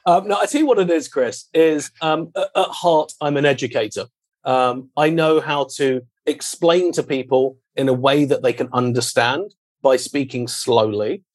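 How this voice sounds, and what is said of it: British accent. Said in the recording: “the British accent ... the British accent”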